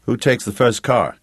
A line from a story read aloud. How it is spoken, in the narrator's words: Jake asked